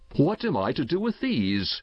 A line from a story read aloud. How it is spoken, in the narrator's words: he cried